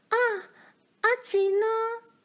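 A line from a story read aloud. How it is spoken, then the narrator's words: Loud cry. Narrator (Chinese): 罗兰大叫了一声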